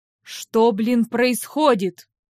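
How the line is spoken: Puzzled low drone. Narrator (Russian): Вновь недоуменно прогудел он

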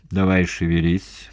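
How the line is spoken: Giant's grumble. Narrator (Russian): пробурчал великан

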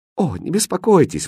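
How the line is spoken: Exclaimed. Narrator (Russian): воскликнул хозяин

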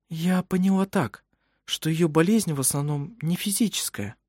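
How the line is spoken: Quiet. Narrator (Russian): Она негромко произнесла

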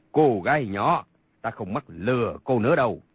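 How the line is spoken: Loud laughing. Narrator (Vietnamese): Một người cười lớn, cười nói

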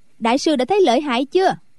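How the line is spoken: Loud laughter. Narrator (Vietnamese): Quách Tường cười to

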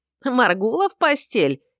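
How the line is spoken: Giggling from the left. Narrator (Russian): хихикнул где-то слева голос Ваконра

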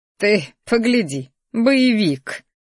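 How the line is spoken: Grumbled under breath. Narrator (Russian): буркнула она себе под нос

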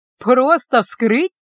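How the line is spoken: Laughing. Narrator (Russian): рассмеялась я

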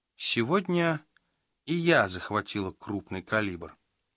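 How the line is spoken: Calm. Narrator (Russian): спокойно сообщила она

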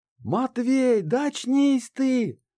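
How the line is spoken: Yelled right into ear. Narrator (Russian): заорала мне в ухо Банши

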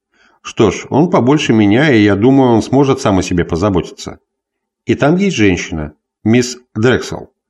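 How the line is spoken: Calm. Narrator (Russian): прибавил Дэвис спокойно

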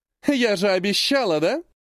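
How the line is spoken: Loud laughter. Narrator (Russian): расхохоталась Эрин

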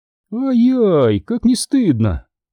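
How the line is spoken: Small purring voice. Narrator (Russian): промурлыкал голосок у моего плеча

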